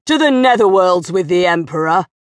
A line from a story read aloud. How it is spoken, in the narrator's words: snarled